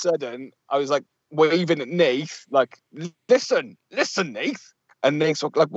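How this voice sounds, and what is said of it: Usual voice. Nothing is said of it.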